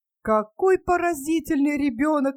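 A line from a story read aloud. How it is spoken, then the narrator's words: Exclaimed. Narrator (Russian): воскликнул Скрудж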